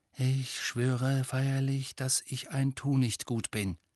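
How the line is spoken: Murmured. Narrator (German): murmelte

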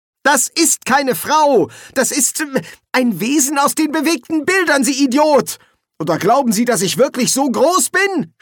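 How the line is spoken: Shouting. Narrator (German): schrie Ginger

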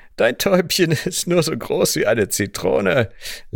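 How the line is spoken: Cheerful laughing. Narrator (German): lachte mein Bruder, während er gut gelaunt

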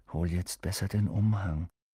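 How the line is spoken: Murmured. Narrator (German): murmelte Ron

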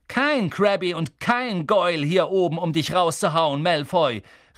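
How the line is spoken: Called out. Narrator (German): rief Harry

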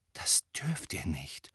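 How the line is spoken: Whisper. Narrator (German): flüsterte Hermine

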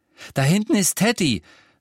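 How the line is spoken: Breathless. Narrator (German): sagte er atemlos

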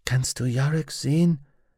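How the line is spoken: Whispered. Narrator (German): flüsterte sie Pantelamon zu

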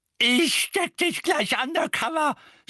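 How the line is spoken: Shouting. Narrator (German): schrie Mrs

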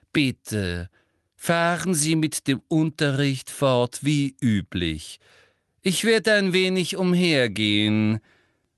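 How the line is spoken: Loud and slow. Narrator (German): sagte wiederum sehr laut und langsam

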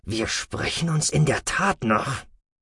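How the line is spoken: Hissed. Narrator (German): zischte der Sek'Ator

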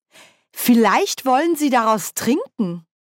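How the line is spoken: Thinking aloud. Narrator (German): überlegte Nanny laut

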